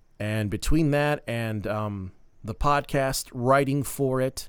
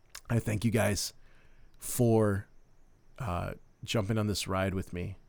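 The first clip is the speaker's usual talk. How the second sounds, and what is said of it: Emotional, choked-up voice. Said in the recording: “I'm just getting a little emotional.”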